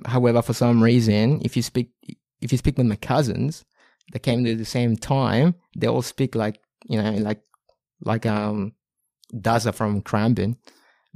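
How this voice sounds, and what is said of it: Non-Australian foreign accent in English. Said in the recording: “I kept the accent”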